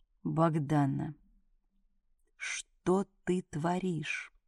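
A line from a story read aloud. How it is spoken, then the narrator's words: Hoarse, dry, humorless. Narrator (Russian): Голос звучал без обычной смешинки, хрипло и сухо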